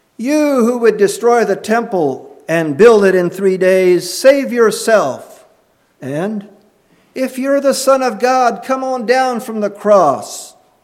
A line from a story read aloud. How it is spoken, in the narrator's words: The passers-by blasphemed, shouting